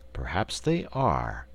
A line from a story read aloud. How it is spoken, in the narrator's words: assented the wizard in a thoughtful tone of voice